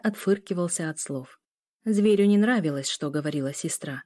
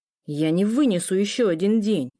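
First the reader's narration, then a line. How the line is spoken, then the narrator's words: Muffled growl. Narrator (Russian): Приглушенно рыкнул Лео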